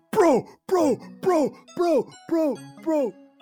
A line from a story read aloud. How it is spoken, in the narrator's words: you can just hear over top of it all Big Top yelling